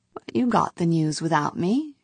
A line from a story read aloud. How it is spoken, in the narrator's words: she said coolly